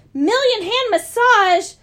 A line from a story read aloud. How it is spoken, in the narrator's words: Grover cried